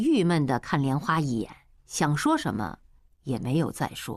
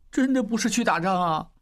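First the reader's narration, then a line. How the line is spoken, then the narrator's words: Low tearful voice. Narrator (Chinese): 小栓带着哭腔低声说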